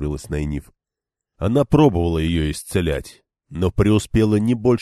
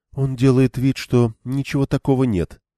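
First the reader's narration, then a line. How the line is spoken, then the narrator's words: Even voice. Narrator (Russian): ровным голосом проговорила Мин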